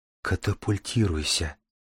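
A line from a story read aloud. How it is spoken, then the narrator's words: Hopeless whisper. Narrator (Russian): шептали губы Дарьи и Дара, хотя оба понимали, что помочь другу уже не в состоянии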